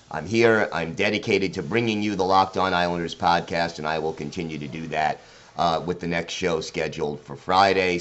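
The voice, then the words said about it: Sick voice, sounds a little off. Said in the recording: “in case you haven't heard it in my voice... I contracted COVID... if my voice sounds a little off or if I cough”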